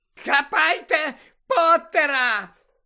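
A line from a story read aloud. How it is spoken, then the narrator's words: Shrieked. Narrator (Ukrainian): заверещала Белатриса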